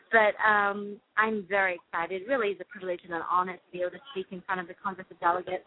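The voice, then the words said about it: British accent. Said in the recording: “my British accent will be on full force there”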